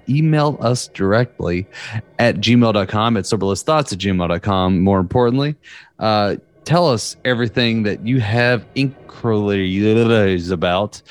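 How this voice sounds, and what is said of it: Strong Southern American accent. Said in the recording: “My southern accent is cutting through pretty hard, and I'm having issues speaking the English language in a clear, consistent fashion.”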